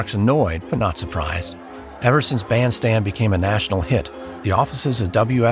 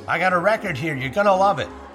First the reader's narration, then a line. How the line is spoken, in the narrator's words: He yells to Clark over the loud music